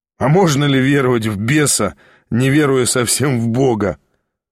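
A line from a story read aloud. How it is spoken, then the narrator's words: Laughing. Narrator (Russian): засмеялся Ставрогин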